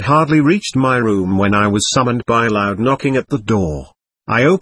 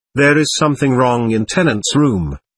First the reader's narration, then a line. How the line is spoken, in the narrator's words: he said